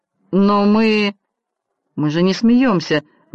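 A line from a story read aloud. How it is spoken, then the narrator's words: Forced, strained. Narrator (Russian): выдавила из себя Шэрон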